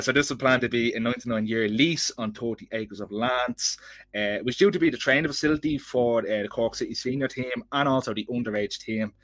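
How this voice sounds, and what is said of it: Dublin Irish accent. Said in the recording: “a fellow with a Dublin accent”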